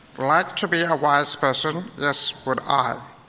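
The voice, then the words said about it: Poor Yoda character voice. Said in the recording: “That was terrible, wasn't it? It was really bad. It was meant to be a Yoda impersonation.”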